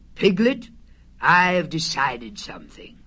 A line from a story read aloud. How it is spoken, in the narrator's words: Pooh said in a very solemn voice